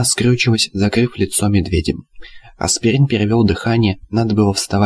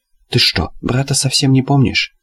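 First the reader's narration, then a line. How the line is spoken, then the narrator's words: Through gritted teeth. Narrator (Russian): спросил сквозь зубы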